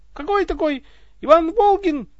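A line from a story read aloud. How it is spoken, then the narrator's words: Shrill squeal. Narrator (Russian): взвизгнул сон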